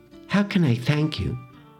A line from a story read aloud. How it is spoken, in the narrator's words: asked warmly